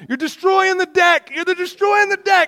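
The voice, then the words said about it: Yelling in quoted voice. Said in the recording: “she's yelling at me”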